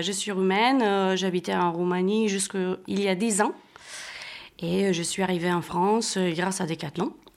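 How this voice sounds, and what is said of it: Romanian accent speaking French. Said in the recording (French): “D'où te vient ce bel accent ... je suis roumaine”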